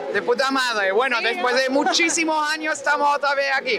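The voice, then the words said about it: German accent in Spanish. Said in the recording (Spanish): “Por tu acento veo que no eres de aquí... Soy alemana”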